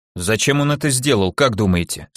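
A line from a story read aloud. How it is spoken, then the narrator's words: Plain question. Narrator (Russian): спросил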